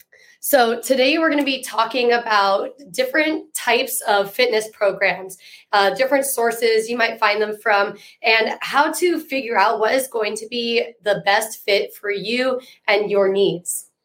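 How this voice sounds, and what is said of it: Congested, slightly funked-up voice. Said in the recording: “as you can tell, my voice is still a little bit funked up here... This congestion just won't stop.”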